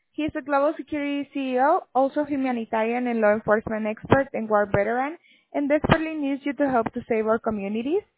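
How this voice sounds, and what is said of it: Heavy accent, hard to understand. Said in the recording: “I can only understand about a quarter of what you're saying. It's really hard to understand you because of your accent.”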